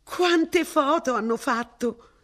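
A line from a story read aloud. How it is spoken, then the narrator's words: Exclaimed. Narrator (Italian): esclamò Mrs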